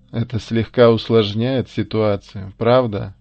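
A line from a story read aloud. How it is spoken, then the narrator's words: Loud laughter. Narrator (Russian): захохотал Луис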